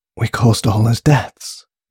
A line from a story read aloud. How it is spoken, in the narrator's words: breathed Grace to herself in a state of shock